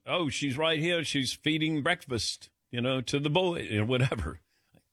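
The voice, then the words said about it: David Beckham accent impression. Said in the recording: “How was that accent?”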